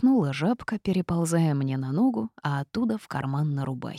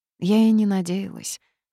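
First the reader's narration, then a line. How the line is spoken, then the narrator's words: Sad. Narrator (Russian): ответила грустно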